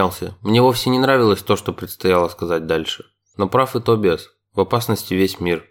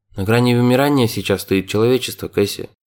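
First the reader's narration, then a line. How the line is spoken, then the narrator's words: Calm reminder. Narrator (Russian): спокойно напомнил ей Тобиас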